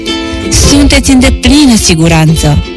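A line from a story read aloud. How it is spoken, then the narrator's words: Plain. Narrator (Romanian): i-a răspuns mama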